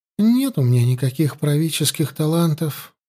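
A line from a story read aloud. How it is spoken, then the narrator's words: Sighing. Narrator (Russian): вздохнула Елена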